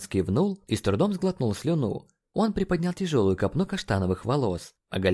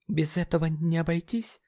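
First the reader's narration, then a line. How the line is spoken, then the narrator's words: Shaky-voiced question. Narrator (Russian): Дрогнувшим голосом спросил МДжей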